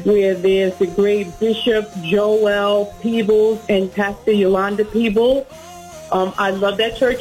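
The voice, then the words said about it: New York accent. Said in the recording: “You can hear the accent. ... She's from New York.”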